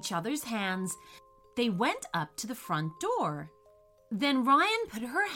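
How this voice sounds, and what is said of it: Usual voice. Nothing is said of it.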